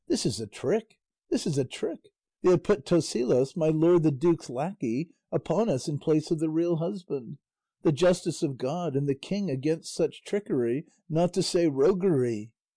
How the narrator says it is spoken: Doña Rodriguez and her daughter raised a mighty outcry, exclaiming

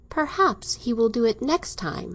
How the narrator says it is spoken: she exclaimed, with a repetition of her laugh

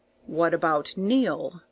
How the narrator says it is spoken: asked Thomas Gordon gravely, rousing himself with an effort from his abstraction of wonder

